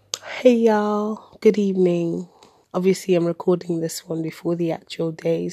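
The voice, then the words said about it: Voice cutting in and out. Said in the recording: “my voice is still in and out”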